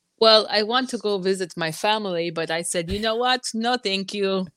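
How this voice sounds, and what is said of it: Put-on Ukrainian accent. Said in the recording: “Is that your Ukrainian accent?”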